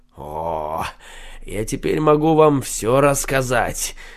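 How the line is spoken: Mysterious tone. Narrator (Russian): каким-то загадочным тоном ответил Шульца

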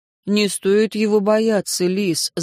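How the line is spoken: Gentle remark. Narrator (Russian): заметил Вану ласково

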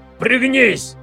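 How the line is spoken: Sharp bark. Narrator (Russian): рявкнул Кларенс

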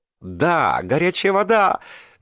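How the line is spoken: Joyful yell. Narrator (Russian): радостно завопила кочевница

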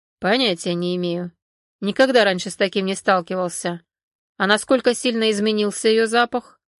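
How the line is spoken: Calm. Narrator (Russian): спокойно произнес

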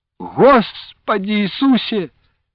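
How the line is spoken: Pious exclamation. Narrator (Russian): богомольно воскликнула Анастасия

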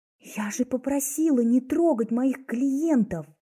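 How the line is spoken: Hiss through teeth. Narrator (Russian): прошипела сквозь зубы

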